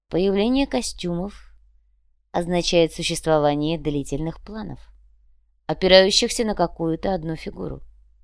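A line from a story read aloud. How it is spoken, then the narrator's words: Calm explanation. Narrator (Russian): спокойно объяснил Сантьяго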